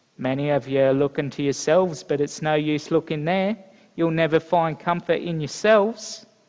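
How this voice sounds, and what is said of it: Attempted Essex accent, poorly done. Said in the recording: “my butchering of the Essex accent”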